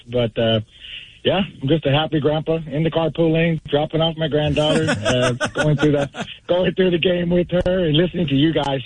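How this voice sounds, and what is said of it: Hoarse voice. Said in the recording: “My voice is still a little bit hoarse”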